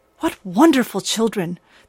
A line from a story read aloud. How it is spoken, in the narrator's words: the ogress murmured outside